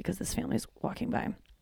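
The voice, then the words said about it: Quiet, hushed speech. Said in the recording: “you guys can tell I'm talking so quietly”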